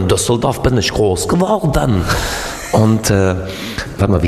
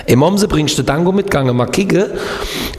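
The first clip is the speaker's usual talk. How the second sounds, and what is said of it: Put-on regional Baden dialect. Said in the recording (German): “wie geht nochmal Kehl am Rhein, wo ich gelebt habe?”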